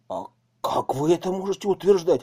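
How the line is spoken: Exclamation. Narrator (Russian): воскликнул Моисеенко

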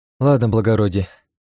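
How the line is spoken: Sighing. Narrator (Russian): вздохнула она

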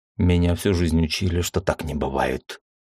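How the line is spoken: Quiet whisper. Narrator (Russian): тихо прошептал я

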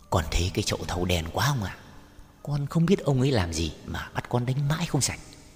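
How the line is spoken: Servant boy whispering. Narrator (Vietnamese): thằng đầy tớ thì thào với ông rằng

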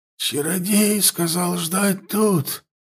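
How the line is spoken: Hoarse. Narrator (Russian): проговорила морская дева, хрипло

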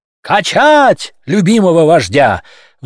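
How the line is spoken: Roaring crowd. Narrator (Russian): взревели котики

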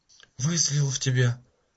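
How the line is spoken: Barely audible whisper. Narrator (Russian): прошептала она еле слышно

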